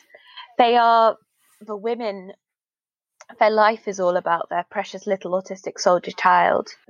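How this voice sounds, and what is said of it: Terrible put-on American accent. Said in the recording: “Terrible American accent”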